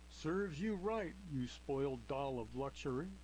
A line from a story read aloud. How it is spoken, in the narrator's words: she mocked